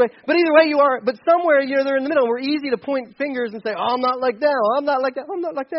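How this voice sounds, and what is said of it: Usual voice. Nothing is said of it.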